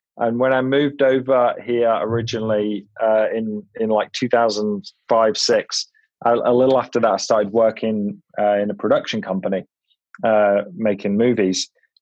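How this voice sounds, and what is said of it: English accent. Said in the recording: “hopefully I've still got an English accent, but I've lived in California for about 15 years now”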